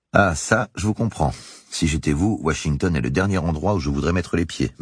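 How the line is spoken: Plain. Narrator (French): m'a dit Bush

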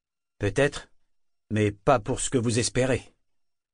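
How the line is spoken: Harsh reply. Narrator (French): répondit durement Brashen

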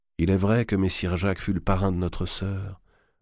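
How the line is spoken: Murmured. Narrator (French): murmura Charles

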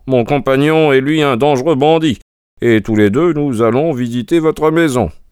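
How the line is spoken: Cheerful reply. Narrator (French): répondit Holmes gaiement

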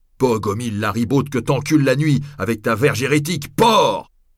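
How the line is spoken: Cook shouting. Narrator (French): cria le cuisinier

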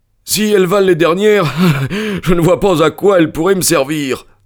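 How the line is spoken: Sneering. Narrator (French): répondit Amberley en ricanant

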